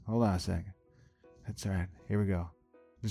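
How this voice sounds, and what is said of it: Usual voice. Nothing is said of it.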